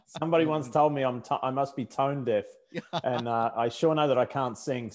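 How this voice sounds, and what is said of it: Australian accent. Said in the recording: “I haven't lost my Australian accent after all these years.”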